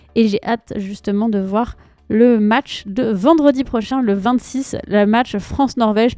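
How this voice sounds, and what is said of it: French accent from France. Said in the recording (French): “vous l'entendez à mon accent, je suis française”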